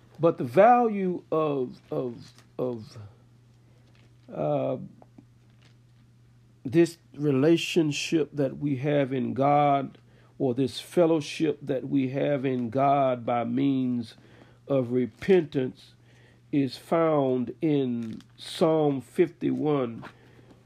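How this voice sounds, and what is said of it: Voice with a slight cold. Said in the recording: “If you can tell, I have a little cold.”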